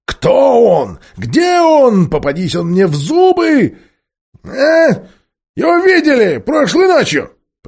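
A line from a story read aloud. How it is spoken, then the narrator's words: Shrieking monkey. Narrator (Russian): провизжал обезьян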